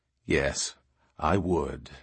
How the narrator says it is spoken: Mun assured her gravely

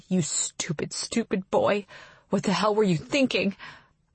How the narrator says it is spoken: muttering

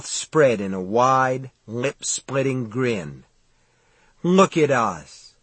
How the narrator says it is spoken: he said in a thick, sentimental voice

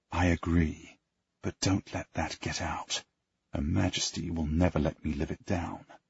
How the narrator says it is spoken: I whisper

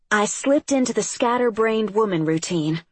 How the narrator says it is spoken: she told me and Audrey, her voice growing louder, catching hold

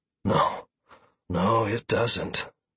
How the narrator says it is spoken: Drace said wistfully

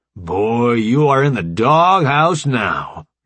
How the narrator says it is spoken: Jones boomed as he came closer

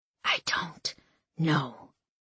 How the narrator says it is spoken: he whispered almost soundlessly

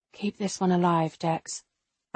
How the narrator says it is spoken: I murmur

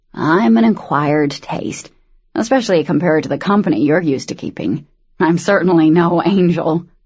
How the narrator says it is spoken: he snorted

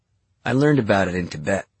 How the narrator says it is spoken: he said

